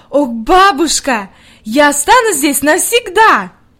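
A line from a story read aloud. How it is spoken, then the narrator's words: Delighted exclamation. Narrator (Russian): с восторгом воскликнула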